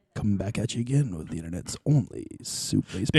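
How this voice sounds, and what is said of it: Announcer-style radio voice. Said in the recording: “This is a good radio voice.”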